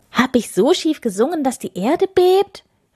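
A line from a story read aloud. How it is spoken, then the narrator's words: Call. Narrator (German): rief Schorsch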